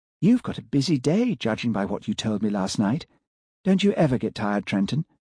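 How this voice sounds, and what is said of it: Clipped English Home Counties accent. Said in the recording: “she said, in her clipped home county's accent”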